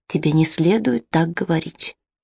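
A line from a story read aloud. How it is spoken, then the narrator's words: Whisper. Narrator (Russian): прошептал он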